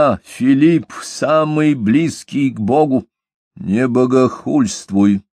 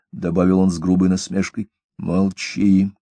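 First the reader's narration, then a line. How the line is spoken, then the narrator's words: Muttered through teeth, king. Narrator (Russian): проронил король сквозь зубы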